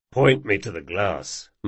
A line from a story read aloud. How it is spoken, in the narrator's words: muttered Jean